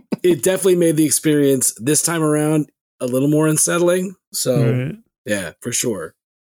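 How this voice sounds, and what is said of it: Voice slightly off, under the weather. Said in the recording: “I've been a little under the weather, so my voice is a little off.”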